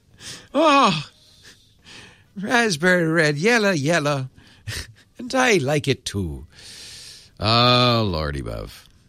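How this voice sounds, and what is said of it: Put-on Irish commercial accent. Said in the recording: “the female Irish voice is the most credible ... two places Americans get their Irish accent. One is that Irish Spring commercial, and the other is Lucky Charms.”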